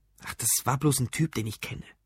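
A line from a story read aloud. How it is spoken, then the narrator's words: Whispered. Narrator (German): flüsterte er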